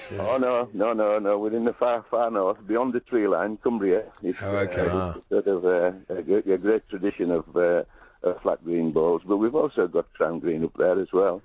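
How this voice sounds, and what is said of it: Northern English accent. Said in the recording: “you've got a northern accent”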